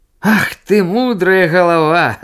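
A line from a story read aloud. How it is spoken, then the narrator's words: Laughing. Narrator (Belarusian): засмяяўся гандляр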